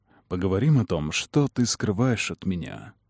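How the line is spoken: Whisper from behind. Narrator (Russian): прошептал Кэллум у меня за спиной

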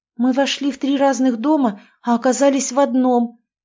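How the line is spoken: Surprised, delighted tone. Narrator (Russian): Катя говорила удивленно и даже радостно, точно это был забавный фокус

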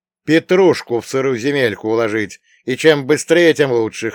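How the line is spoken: Snorting. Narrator (Russian): хмыкнул я

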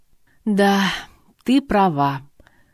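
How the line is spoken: Untroubled sigh. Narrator (Russian): вздохнула без тени расстройства

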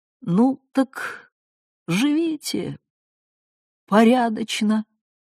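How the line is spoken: Weak quavering voice. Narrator (Russian): проговорил слабым дребезжащим голосом

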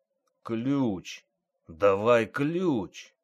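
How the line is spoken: Hoarse rasp, inspector. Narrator (Russian): прохрипел ревизор

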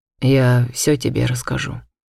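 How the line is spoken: Perfectly calm. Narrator (Russian): он абсолютно спокойно ответил

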